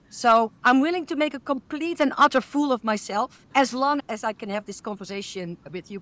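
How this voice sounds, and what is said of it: Dutch accent in English. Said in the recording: “I have a cute accent ... everyone loves our Dutch accent”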